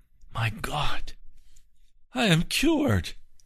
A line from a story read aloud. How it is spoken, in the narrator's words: exclaimed in great astonishment